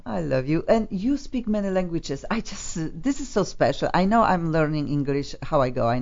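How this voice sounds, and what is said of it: Non-native English accent. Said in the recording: “Accent On is about people with accent. People who are struggling sometimes, and they know, people like me ... don't be worried to speak with funky accent and make lots of mistakes”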